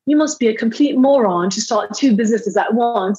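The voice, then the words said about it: Poor imitation British accent. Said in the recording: “he's British ... My British accent is terrible.”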